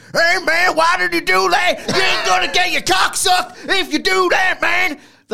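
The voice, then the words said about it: Impression of a man's voice. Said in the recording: “That's my impression of him.”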